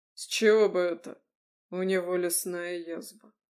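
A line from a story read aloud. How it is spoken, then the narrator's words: Quiet. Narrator (Russian): тихо произнес Януш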